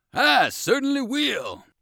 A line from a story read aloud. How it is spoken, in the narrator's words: cried Munchie